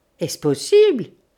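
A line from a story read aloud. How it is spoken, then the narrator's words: Professor exclaiming. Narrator (French): s'écria le professeur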